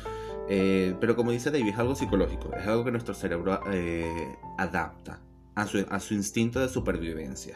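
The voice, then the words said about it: Venezuelan accent with Argentine touches. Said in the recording (Spanish): “te sale el acentito ... un acento igual raro, porque es algo que va a tener ciertos toques como de pimienta, en el sentido de como que ciertos toques de, argentino, pero la raíz de mi acento es netamente venezolano”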